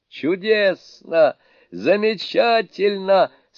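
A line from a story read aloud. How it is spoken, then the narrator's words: Delighted exclamation. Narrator (Russian): с восторгом воскликнул Суню-кун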